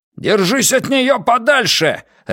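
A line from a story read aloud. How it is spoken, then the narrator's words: Barking. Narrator (Russian): рявкнул Ван Эк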